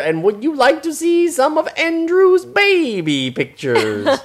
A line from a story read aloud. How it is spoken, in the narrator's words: yelled Andrew